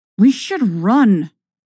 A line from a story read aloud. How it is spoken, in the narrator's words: Ahsoka hisses at you